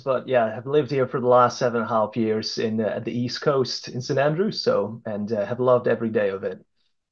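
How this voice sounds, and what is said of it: Dutch-accented English, not Scottish. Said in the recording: “I wish I could pretend to have the Scottish accent as well. But as you can hear, that's not the case. I'm from the Netherlands.”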